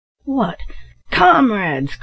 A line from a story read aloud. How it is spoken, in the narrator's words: cried Black Jim with an oath